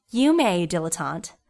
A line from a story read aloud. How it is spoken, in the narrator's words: Ella chuckled